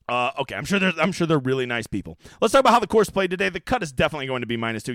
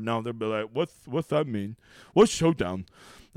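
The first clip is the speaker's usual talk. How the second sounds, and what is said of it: Impression of a DraftKings intern. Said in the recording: “That's my impression of a DK intern”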